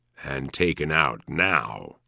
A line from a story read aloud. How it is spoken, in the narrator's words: he says grimly